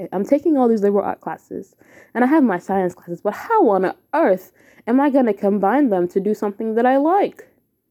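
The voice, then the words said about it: Fake British accent. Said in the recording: “this fake British accent, it's working for me, but it's not really working for me”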